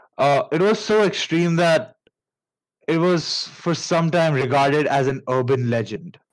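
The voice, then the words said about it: Indian English accent. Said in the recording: “pardon my Indian accent.”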